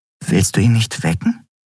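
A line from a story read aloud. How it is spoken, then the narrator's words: Plain. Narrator (German): fragte Nelan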